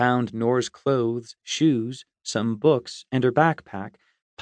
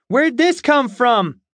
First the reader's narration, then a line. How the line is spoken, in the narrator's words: she shouted down the hall